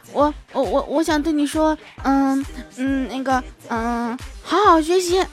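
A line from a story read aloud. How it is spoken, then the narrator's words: Stammering. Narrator (Chinese): 结结巴巴的说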